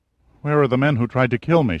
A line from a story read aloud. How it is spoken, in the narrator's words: she asked in a frightened voice